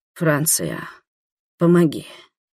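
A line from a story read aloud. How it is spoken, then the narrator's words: Hoarse whisper. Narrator (Russian): Рик хрипло прошептал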